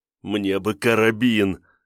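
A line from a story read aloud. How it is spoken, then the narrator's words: Pitiful whining plea. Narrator (Russian): жалким хныкающим тоном попросил Диконов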